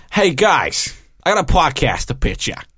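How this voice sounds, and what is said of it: Put-on American accent. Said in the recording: “Your accent was pitch perfect. With the, hey, guys, hey, I got a podcast.”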